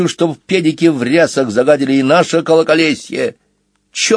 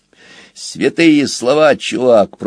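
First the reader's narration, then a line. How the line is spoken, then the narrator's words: Grumbled. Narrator (Russian): проворчал Сквилл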